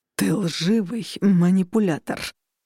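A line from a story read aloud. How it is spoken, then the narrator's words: Growl. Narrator (Russian): прорычал Костя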